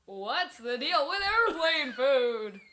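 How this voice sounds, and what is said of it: Jerry Seinfeld impression. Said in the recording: “Do a Jerry Seinfeld impression.”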